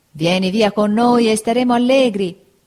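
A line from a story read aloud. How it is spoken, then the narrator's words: Several voices shouting. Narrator (Italian): gridarono altre 4 voci di dentro al carro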